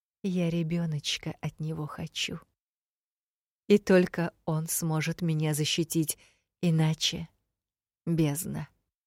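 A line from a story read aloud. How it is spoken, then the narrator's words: Close whisper. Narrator (Russian): прошептала прямо мне в губы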